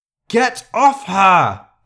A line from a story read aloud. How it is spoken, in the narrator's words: Elizabeth roared